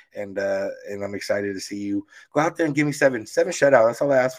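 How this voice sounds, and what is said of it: Hoarse, strained voice. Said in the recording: “my voice is gone”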